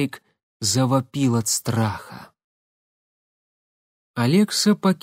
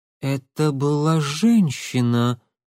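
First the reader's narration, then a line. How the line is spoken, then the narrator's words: Shocked breathless exhale. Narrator (Russian): потрясенно выдохнула она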